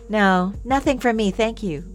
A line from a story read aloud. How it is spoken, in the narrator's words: Katie said